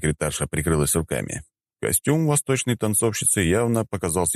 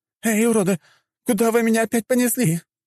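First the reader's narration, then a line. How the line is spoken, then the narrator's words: Girl shouting. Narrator (Russian): закричала девушка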